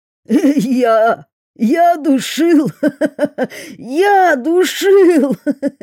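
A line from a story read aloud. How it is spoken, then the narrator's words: Bellowed after laughing. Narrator (Russian): отсмеявшись, заорал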